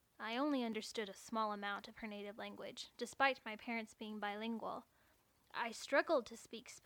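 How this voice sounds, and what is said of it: Usual voice. Nothing is said of it.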